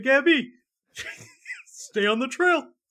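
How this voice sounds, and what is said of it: Yogi Bear impression. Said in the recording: “He's really good at doing that voice. ... He killed that impression. ... Yogi's perspective”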